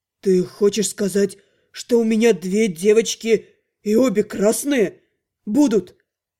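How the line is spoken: Hoarse rasp. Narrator (Russian): Раневельс прохрипел

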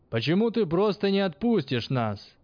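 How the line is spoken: Shout toward distance. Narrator (Russian): крикнул он в сторону поста

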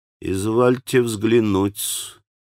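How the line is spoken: Quiet voice. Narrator (Russian): так же тихо произнес Смердяков

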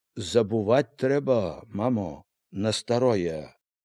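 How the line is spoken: Calm, knowing advice. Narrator (Belarusian): Міканор спакойна, дасведчана параіў

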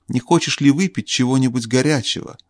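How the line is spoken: Plain question. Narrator (Russian): спросила королева

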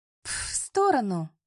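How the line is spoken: Hiss from the side. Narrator (Russian): раздалось шипение сбоку

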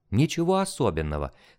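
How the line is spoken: Calm but nervous. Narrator (Russian): спокойно ответил я ему, хотя меня здорово потряхивало от волнения

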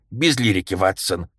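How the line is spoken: Stern interruption. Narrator (Russian): строго перебил меня Холмс

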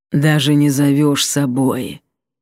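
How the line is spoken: Hoarse reproach. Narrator (Russian): хрипло укорил Сиятельный

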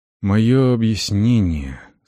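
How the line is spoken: Quiet. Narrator (Russian): сказала тихо

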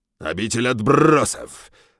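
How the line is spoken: Harsh bark. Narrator (Russian): рявкнул

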